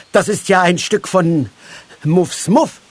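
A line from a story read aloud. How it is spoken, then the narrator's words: Stammered. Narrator (German): stammelte Moosbart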